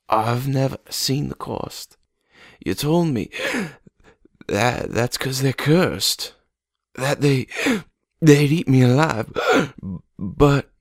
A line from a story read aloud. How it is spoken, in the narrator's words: she wheezed